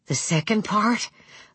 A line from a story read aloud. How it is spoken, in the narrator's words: Lou breathed, aware of his pulse rapping painfully in his throat